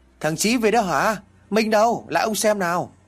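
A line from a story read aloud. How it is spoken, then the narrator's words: Joyful exclamation. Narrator (Vietnamese): ông đã liền reo lên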